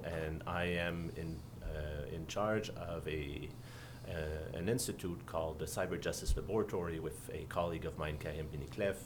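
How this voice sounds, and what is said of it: Quebec French accent. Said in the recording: “As you can tell from my accent, I am actually from Canada, from Quebec”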